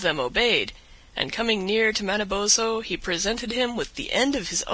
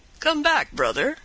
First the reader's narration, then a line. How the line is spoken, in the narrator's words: cried the wolf